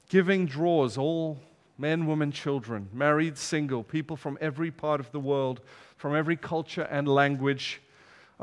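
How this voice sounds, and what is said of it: Foreign accent. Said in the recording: “my accent gives it away, doesn't it? I'm from somewhere far away.”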